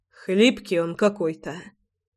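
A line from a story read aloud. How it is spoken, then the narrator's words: Muttered. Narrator (Russian): пробормотал Львовский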